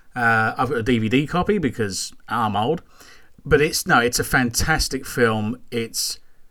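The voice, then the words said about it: Strong Scottish accent. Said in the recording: “my Scottish accent, please. It's shocking.”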